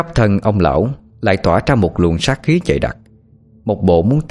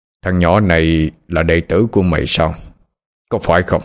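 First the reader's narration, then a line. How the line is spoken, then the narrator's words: Harsh, stern. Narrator (Vietnamese): Ông già gằn giọng mà nói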